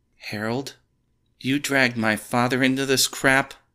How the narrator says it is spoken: Melissa cried

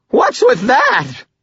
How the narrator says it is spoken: Butters screamed, his voice high and frightened

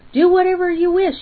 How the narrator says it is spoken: he shouted

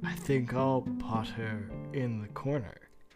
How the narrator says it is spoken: he said under his breath

